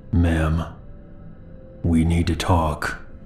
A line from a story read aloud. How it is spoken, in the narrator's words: He then spoke in a low, calm voice